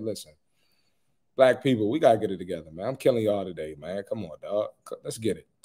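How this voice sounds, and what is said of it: Voice hoarse, fading. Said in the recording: “Sorry if I'm losing my voice ... I think I talk too much and I need some rest”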